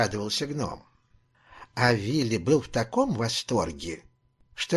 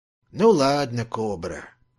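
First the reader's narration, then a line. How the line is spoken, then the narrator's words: Glum agreement. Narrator (Russian): уныло согласился он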